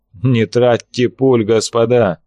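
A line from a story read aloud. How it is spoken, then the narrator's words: Laughing loudly. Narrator (Russian): расхохотался Берг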